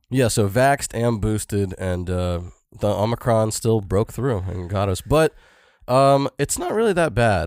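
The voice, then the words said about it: Sore-throated, congested voice. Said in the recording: “my throat kind of hurts. You can probably hear it in my voice ... I'm also congested”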